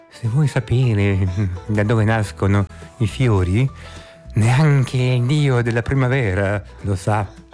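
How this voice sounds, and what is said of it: Imitates another person's voice. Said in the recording (Italian): “lo dico con l'accento, ... orientale. ... No, faccio tipo Carmelo Bene.”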